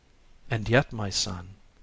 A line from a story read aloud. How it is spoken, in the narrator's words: said the Bodhisattva, laughing softly